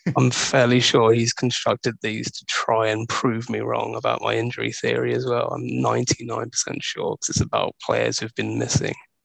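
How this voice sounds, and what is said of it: Non-American accent, strained by cough. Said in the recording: “your accent, even if it is strained by a cough, is more fitting for Fonet's power rankings than my American accent”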